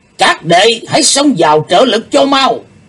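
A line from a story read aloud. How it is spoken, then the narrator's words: Sudden loud shout. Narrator (Vietnamese): Đệ nhất sứ giả bỗng lớn tiếng quát to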